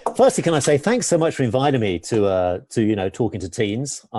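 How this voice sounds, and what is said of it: Classy English accent. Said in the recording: “My English accents as well... It sounds classy... very Downton Abbey.”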